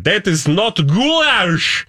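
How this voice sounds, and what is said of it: Put-on Eastern European accent. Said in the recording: “That's my every accent for that part of the world.”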